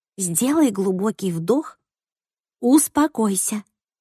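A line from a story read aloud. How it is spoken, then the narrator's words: Whisper. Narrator (Russian): прошептала Кассандра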